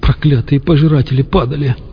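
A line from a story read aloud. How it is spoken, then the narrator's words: Sobbing. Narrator (Russian): всхлипнул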